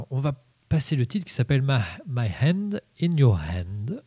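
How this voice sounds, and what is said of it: Heavily French-accented English. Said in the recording (French): “J'ai toujours un super accent anglais, c'est assez incroyable.”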